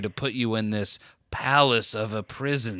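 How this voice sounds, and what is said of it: Slow, flat, monotone old-person voice. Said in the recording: “my impression of Jada Pinkett being old. I'm very old ... I'm talking like this, slower, almost no inflection ... kind of just the same Ben Steinish tone throughout”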